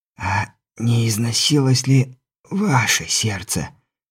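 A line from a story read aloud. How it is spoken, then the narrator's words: Hissed, on last breath. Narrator (Russian): прошипел я и на одном, возможно, последнем дыхании произнес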